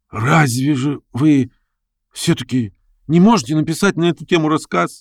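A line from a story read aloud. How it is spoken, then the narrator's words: Hoarse question. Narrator (Russian): хрипло спросил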